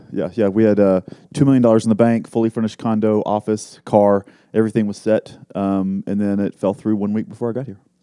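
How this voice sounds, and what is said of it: Slight Texan accent. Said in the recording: “From Texas. ... I hear a slight ... accent. Slight accent. ... I try to hide it.”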